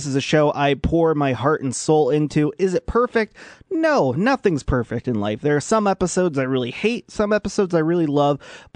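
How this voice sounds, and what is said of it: Polished radio-host voice. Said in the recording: “I think I finally found my, quote, radio voice”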